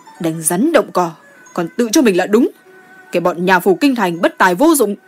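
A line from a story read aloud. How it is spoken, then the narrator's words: Grim, resentful. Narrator (Vietnamese): đốc sứ Thành Liễm mặt sắt lại hậm hực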